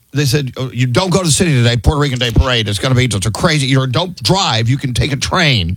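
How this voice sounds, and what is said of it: Put-on Long Island accent. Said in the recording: “that accent is wild. That's Sally from like Long Island or something.”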